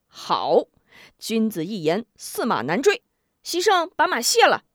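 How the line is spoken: Laughing. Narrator (Chinese): 吴中笑道

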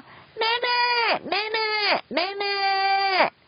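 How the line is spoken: Loud calling. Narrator (Chinese): 佳佳 大声叫

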